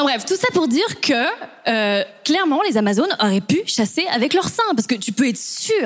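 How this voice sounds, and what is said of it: Usual voice. Nothing is said of it.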